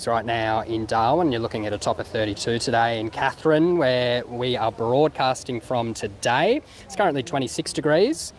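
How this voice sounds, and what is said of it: Mock weather-bureau forecast voice. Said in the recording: “That's my best Bureau of Meteorology impersonation.”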